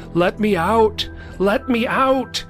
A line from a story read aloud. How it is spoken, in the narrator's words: I started screaming over and over